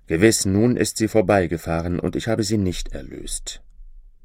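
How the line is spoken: Heartfelt sadness. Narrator (German): ward er von Herzen traurig und sprach

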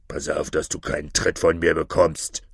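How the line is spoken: Angry hiss. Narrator (German): zischte der Räuberhauptmann verärgert

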